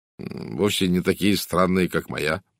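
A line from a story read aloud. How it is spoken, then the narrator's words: Mutter. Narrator (Russian): пробормотал сэр Чарльз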